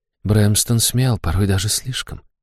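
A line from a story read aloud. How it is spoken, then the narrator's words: Whisper. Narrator (Russian): шепнула она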